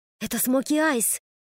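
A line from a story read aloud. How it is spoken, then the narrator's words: Whisper. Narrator (Russian): прошептала Ода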